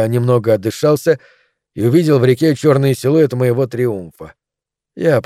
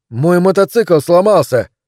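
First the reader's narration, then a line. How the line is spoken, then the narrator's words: Shouting. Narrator (Russian): крикнул я в ответ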